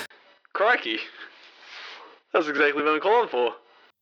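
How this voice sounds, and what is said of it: Put-on jolly Australian accent. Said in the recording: “Australian from Kentucky ... fantastic Australian accent that you have there ... Very jolly ... Very, very, very Australian ... phone quality, his accent may not come through as much, but trust us. He sounds very Australian.”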